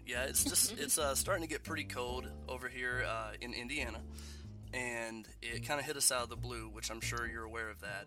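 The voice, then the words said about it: Nasal, congested voice. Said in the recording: “I sound a little nasally or congested ... I'm kind of sick.”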